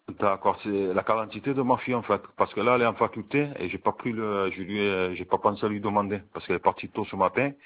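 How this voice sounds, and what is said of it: Spanish and southern French accent. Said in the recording (French): “Vous avez un petit accent qui fait que j'ai du mal des fois à comprendre ... un joli accent ... j'ai l'accent espagnol et un peu l'accent du sud, donc c'est un accent un peu particulier”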